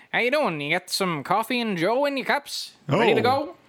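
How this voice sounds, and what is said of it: Put-on 1940s-style accent. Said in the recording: “Just walk into work with a 1940s accent.”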